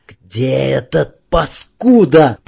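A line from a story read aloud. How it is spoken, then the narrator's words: Hoarse rasp. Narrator (Russian): прохрипел Есов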